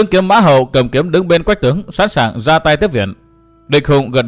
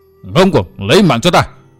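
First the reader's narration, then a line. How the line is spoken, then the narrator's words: Angry shout. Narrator (Vietnamese): Địch Hùng tức giận quát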